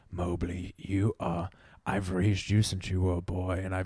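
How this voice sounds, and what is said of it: Mystical bear character voice. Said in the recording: “He says it in a mystical bear voice though.”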